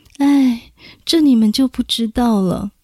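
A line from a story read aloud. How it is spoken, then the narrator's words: Sighing. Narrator (Chinese): 傅李夫人叹了口气说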